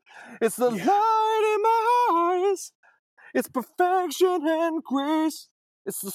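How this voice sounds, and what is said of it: Sung imitation of another person's voice. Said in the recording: “that's actually a great Michael McDonald ... great impression”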